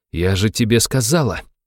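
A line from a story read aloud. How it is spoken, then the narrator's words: Hissed through teeth. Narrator (Russian): процедила пуговка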